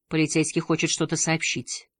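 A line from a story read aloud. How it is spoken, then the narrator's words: Quiet. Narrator (Russian): тихо сказал Бергер Хольмен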